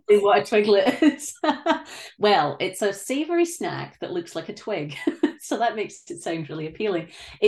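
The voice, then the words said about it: Scottish accent. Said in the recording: “has an accent. You're from Scotland.”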